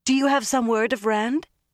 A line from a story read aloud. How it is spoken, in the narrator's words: Egwene asked eagerly